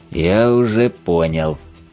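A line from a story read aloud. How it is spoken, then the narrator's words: Seething, through gritted teeth. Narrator (Russian): постепенно закипая, процедил я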